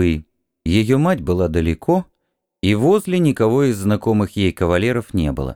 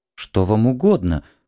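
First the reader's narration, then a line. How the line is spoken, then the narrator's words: Trembling voice. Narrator (Russian): произнесла она дрожащим голосом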